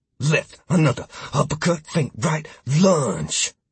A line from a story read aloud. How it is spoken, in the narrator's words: muttering